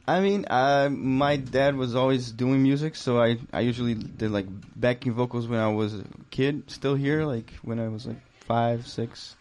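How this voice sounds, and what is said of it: Speaks English with a strong foreign accent. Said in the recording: “You're a fucking singer-songwriter with a crazy accent.”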